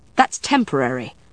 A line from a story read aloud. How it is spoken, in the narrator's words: Matthew said sharply